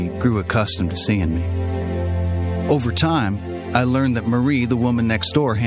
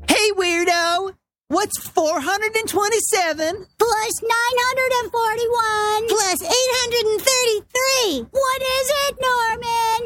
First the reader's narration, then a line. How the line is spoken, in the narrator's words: I remember children used to poke Norman and scream